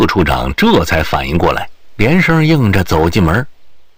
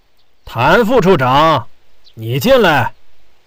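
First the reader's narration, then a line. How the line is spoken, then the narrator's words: Loud call. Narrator (Chinese): 焦少成又高声喊道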